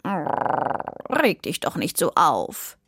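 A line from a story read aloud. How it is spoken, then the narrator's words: Purring. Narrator (German): schnurrte Sammy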